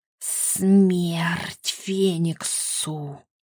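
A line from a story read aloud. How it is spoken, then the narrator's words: Sinister hiss inside mind. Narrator (Russian): зазвучало в сознании зловещее шипение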